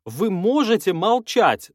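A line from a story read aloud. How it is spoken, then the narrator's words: Shouting from above. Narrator (Russian): закричала с потолка режиссер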